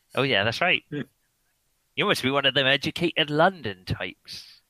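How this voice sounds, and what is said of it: Put-on West Country English accent. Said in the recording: “I've got a West Country accent because I moved here from ... Somerset”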